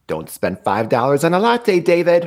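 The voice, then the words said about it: Imitates another person's voice. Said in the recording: “That's my ... impersonation again.”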